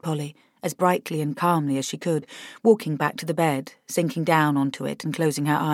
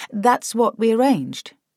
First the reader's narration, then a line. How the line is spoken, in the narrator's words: said Polly